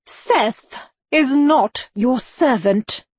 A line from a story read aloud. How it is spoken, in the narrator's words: she said stiffly